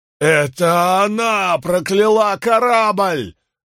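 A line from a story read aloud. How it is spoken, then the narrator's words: Wailing yell. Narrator (Russian): вопил капитан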